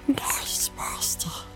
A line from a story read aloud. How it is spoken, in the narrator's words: he whispered